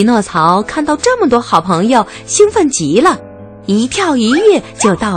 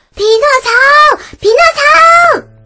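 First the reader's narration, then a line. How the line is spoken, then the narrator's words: Crowd shouting. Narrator (Chinese): 大家大喊道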